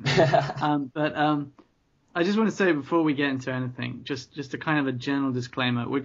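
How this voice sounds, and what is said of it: British accent. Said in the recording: “you'll know it's ... for the British accent”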